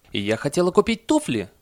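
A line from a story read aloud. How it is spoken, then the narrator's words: Woman's shriek. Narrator (Russian): взвизгнула одна из женщин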